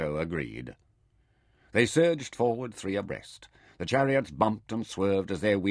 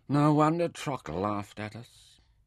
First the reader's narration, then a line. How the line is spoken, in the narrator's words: said Mintaka bitterly